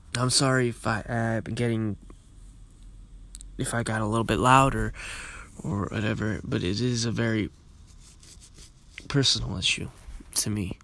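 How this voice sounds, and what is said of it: Tired-sounding voice. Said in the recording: “I sound tired too. I was, I've been working all night.”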